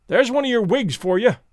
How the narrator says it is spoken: cried Alan

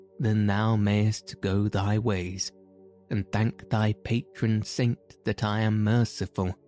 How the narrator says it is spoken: said the tanner

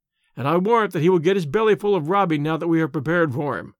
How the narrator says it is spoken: laughed Tarzan

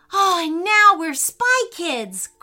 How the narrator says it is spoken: cried Leo for joy

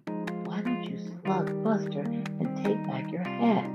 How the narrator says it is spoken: their friend Gloria whispered

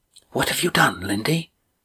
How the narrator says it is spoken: she whispered quickly, her words barely audible to Estrella

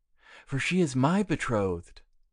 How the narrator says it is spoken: cried Aubert

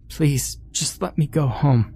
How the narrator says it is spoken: whimpered

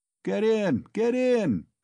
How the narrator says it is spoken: shouted one of them, a young, thick-necked peasant

